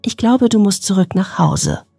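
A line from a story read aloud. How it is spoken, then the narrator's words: Trembling voice. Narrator (German): sagte sie mit zitternder Stimme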